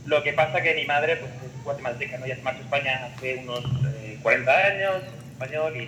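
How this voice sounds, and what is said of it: Spanish accent from Spain. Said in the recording (Spanish): “como verás por el acento, soy de España”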